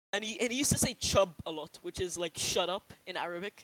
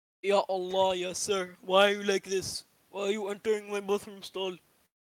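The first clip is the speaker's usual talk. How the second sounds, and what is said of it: Strong Arab accent impression. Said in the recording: “a really strong Arab accent”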